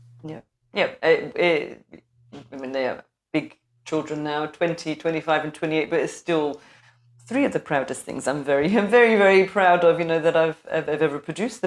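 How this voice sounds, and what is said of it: North London English accent. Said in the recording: “I'm not hearing Scotland so much... I'm a North London girl... I wasn't quite getting the Scottish twang there”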